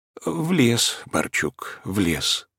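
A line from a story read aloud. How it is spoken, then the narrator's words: Gentle reply. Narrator (Russian): отвечал кукушка ласково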